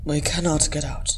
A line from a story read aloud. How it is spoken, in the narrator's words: Ori said calmly